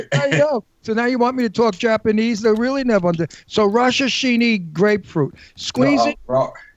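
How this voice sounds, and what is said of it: Brooklyn accent. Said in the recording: “I'm from Brooklyn... I hear the accent. I hear it.”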